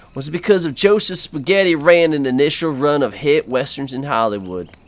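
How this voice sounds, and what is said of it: Thick put-on accent. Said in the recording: “I couldn't understand through that thick accent ... my acting is just so good”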